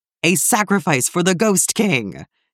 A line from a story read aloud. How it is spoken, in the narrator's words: screamed the servant of the Infinite One